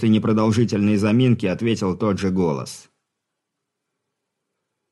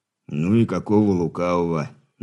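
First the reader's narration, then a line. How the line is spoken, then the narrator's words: Muttering. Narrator (Russian): пробурчал Хор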